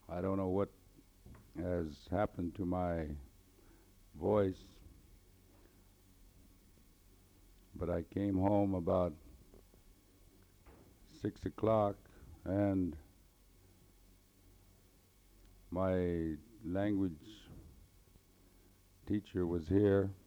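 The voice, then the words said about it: Hoarse voice. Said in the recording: “Your old pappy with a hoarse voice tonight.”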